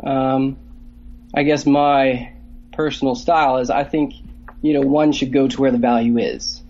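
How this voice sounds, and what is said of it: Canadian accent. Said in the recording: “I love your Canadian accent”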